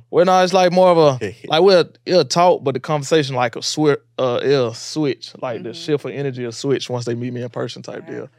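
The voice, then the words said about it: Deep Alabama accent. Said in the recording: “You got a little accent ... I didn't really notice how deep your accent is ... some Alabama”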